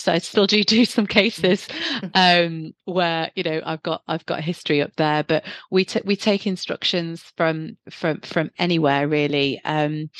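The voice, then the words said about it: Northeast English accent. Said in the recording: “You can probably hear from my accent, I'm originally from the Northeast.”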